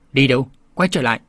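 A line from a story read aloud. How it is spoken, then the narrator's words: Angry shout. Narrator (Vietnamese): tiếng người giận dữ quát bảo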